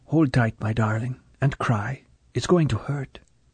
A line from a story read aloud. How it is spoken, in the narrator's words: She had said softly